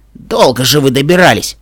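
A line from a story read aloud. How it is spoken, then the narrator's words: Grumbling. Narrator (Russian): проворчал Рингер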